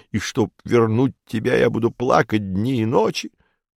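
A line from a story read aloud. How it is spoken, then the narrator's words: Half-voiced hysterical sobbing. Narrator (Russian): Спиридон уже в полголоса, но по-прежнему с рыданиями и с истерическим надрывом сообщил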